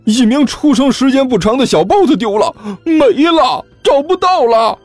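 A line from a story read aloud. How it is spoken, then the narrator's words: Mournful, near tears. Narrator (Chinese): 那名员工哭丧着脸说道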